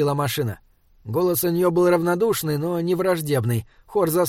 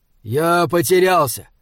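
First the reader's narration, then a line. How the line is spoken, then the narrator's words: Too loud. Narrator (Russian): сказал Хорза слишком громко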